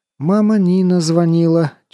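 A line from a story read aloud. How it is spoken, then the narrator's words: Heavy sigh. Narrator (Russian): тяжело вздохнув, сообщила мне Аська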